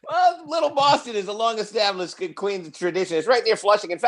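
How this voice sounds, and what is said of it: Boston accent. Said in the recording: “Boston accent”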